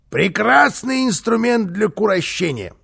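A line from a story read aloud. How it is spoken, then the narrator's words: Loud yell. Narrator (Russian): завопил Карлсон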